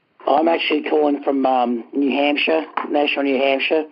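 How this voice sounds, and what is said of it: Australian accent. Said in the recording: “the accent doesn't match ... I'm originally from Australia.”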